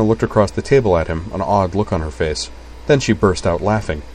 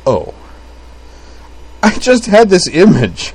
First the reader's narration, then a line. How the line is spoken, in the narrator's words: Utena gasped